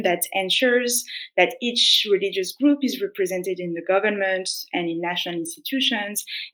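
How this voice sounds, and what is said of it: French-accented English. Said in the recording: “sorry for the French accent”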